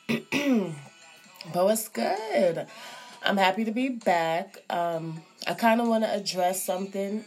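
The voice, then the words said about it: Voice affected by a cold. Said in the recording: “Excuse my voice, I have a little cold”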